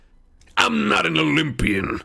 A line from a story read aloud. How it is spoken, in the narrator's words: he growled